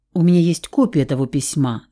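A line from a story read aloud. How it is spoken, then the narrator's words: Plain. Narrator (Russian): сказала я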